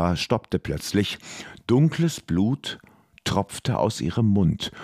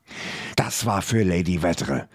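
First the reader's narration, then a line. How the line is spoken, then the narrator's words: Hissing. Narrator (German): zischte die Alpenprinzessin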